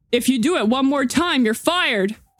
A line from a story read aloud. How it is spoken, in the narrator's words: Adam shouted